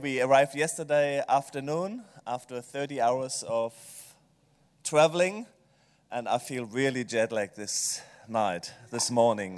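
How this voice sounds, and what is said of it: German accent. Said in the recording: “a German accent”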